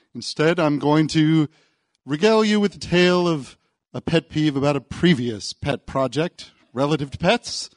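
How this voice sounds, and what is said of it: North American accent. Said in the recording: “As you may have detected from my accent, I come from North America”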